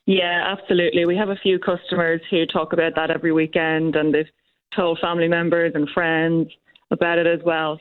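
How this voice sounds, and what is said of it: Irish accent. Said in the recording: “I'm picking up an accent there. Is that Irish? ... It is, yep. I'm from Meath”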